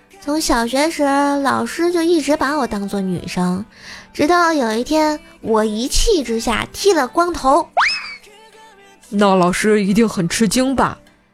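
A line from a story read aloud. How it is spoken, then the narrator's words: Dismissive, flat. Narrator (Chinese): 小菠萝不以为然，淡淡的说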